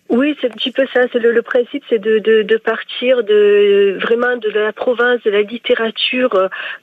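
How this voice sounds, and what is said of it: Marseille Provençal French accent. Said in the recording (French): “je suis une vraie provençale, une vraie marseillaise, avec un accent qui, je pense, ne dément pas ce que je suis en train de dire”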